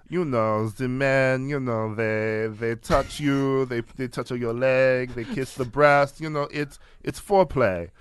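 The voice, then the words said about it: Cartoonish French accent, Catherine Deneuve. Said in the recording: “I don't know what accent that was. ... Like, famous cartoon skunk, Catherine Deneuve.”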